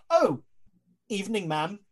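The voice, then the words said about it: Posh British character voice. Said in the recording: “this gorilla is like in a posh British accent.”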